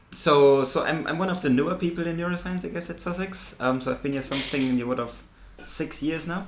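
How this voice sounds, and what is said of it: German accent. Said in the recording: “you can tell from my accent, I'm German”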